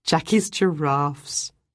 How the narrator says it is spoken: Ruth said with a laugh

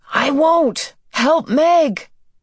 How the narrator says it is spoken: Calvin yelled back

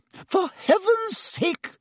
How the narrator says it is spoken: said Madame Pomfrey hysterically

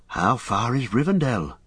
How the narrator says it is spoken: asked Merry, gazing round wearily

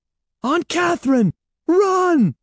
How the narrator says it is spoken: cried

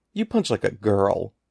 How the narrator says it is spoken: he exclaimed

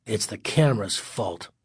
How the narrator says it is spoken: Greg muttered

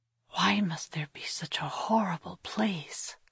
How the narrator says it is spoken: Kira whispered to Thomas

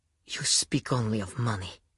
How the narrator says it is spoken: she breathed

